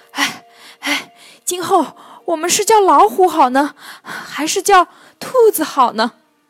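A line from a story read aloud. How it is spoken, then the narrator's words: Panting, breathless discussion. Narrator (Chinese): 喘着粗气，讨论道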